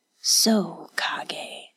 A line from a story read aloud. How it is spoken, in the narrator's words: said, his voice little more than an imperceptible mutter